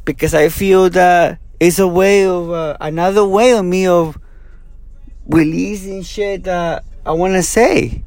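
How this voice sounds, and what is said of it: Heavy accent. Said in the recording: “my fat fucking accent”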